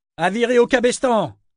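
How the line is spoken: Shouting. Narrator (French): cria Brashen

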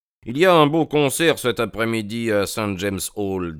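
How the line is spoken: Plain. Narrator (French): dit-il

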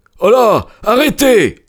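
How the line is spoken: Exclaimed. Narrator (French): s'écria-t-il

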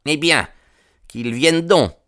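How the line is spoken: Acid voice. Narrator (French): dit-il d'une voix acide

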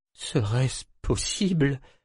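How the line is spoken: Broken-voiced question. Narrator (French): demanda d'une voix entrecoupée

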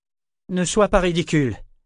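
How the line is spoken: Curt tone. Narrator (French): dit d'un ton sec

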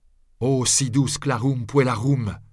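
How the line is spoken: Shouted. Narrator (French): lui criai-je

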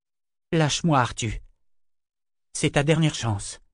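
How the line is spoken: Even tone. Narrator (French): dit-elle d'un ton égal

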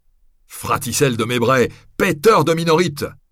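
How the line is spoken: Cook shouting. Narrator (French): lui cria alors le cuisinier

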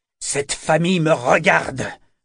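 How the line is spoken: Growled. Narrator (French): gronda-t-il

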